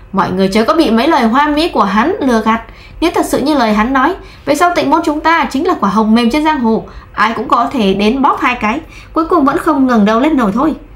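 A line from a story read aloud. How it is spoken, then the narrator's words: Desperate shrill scream. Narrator (Vietnamese): Thẩm Huân liều mạng kéo rẻ rách trong miệng ra, hét lên chói tai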